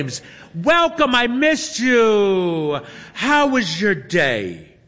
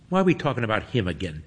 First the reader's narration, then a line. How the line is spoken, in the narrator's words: Toby mutters